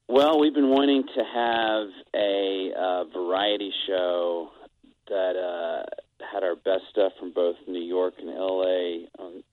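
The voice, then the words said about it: Voice sounds affected by a cold. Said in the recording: “My voice is cold.”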